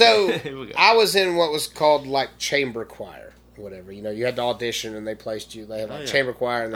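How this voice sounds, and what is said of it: Usual voice. Nothing is said of it.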